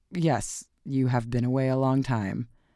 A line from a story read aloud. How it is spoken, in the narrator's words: he answered somewhat stiffly